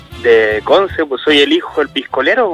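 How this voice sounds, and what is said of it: Unrecognizable, deeper voice from a cold. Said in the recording (Spanish): “te desconocí la voz, compadre, anda resfriado ... voz de hombre”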